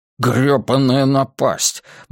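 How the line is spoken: Grumbled. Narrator (Russian): буркнул он

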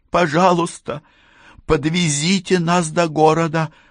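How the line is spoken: Pleading. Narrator (Russian): взмолилась Патти

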